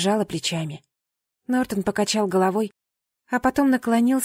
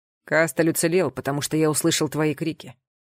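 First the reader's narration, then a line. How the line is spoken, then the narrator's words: Wry snort. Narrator (Russian): хмыкнул Нортон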